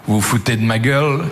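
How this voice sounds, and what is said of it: Thick put-on Liège accent. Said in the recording (French): “avec un accent liégeois à couper au couteau”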